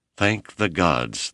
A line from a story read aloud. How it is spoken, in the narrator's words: the nervous visitor sighed